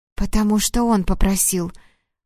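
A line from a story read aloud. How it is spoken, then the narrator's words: Tearful whisper. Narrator (Russian): прошептала Людмила и расплакалась еще сильнее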